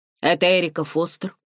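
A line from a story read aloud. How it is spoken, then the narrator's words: Stern male northern-accented question. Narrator (Russian): Строго спросил мужской голос с северным акцентом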